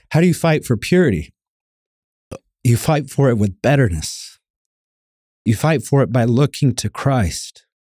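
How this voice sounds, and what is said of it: Choked-up, emotional voice. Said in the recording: “Ooh, I'm getting choked up here.”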